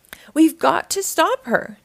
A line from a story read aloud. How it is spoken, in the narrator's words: cried Dora